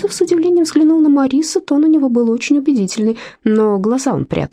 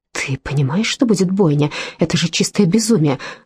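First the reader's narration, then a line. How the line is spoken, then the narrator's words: Snapping retort. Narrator (Russian): огрызнулась Кристина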